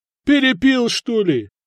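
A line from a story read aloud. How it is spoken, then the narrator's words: Loud surprised young men. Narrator (Russian): громко удивились парни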